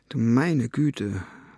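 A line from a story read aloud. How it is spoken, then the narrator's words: Murmured. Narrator (German): murmelte sie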